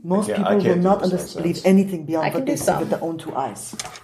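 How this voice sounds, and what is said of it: German accent, Nightcrawler impression. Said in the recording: “My German accent is Nightcrawler from X2.”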